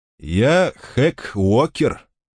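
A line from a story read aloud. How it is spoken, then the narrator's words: Loud, sincere. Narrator (Russian): представился тип в костюме громким искренним голосом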